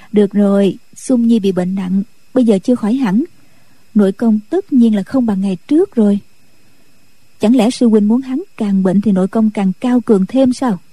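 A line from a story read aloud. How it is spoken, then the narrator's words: Smiling. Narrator (Vietnamese): Nhạc Phu Nhân mỉm cười nói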